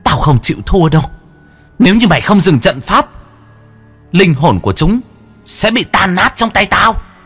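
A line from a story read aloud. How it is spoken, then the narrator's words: Shrieking. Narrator (Vietnamese): Nữ quỷ rít lên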